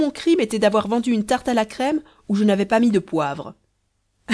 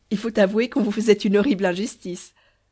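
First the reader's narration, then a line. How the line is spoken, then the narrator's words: Speaking through hearty laughter. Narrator (French): dit Dame de beauté en riant de toute sa force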